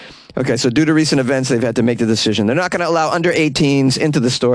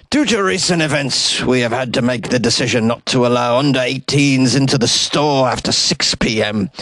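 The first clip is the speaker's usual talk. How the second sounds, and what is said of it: Poor attempt at Scottish accent. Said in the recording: “I can't really do a Scottish accent ... This is the worst Scottish accent ever”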